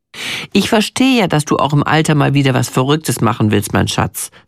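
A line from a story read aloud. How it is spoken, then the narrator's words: Plain. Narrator (German): sagt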